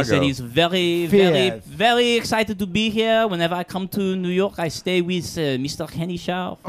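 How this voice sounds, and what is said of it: Put-on French accent. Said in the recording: “That whole little French thing you did”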